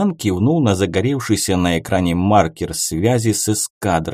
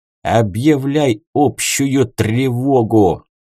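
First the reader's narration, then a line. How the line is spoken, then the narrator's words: Angry exhale. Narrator (Russian): зло выдохнул шаман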